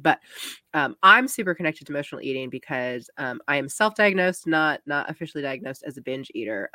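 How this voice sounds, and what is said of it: Cracky voice from a cold. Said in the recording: “I have a cold, so I'm very sorry if my voice is a little cracky”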